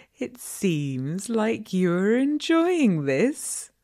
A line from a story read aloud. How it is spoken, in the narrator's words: I said, taunting him a bit